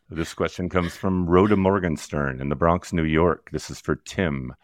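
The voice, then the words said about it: Deep late-night FM DJ voice. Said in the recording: “drop that octave, that voice, like a full octave. I need a late night FM DJ voice”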